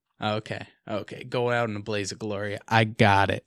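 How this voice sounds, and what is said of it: Loud, booming radio-style voice. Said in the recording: “you sounded real loud like that. That's your radio voice.”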